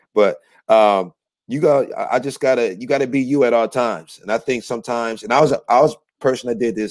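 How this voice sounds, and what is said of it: Hoarse, worn-out voice. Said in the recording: “my voice is a little shot. So I'm on vocal rest.”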